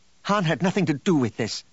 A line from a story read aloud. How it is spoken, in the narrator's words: Leia snapped